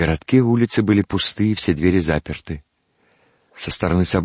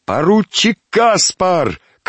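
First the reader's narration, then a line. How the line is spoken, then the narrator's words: Shout. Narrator (Russian): крикнул один из подбежавших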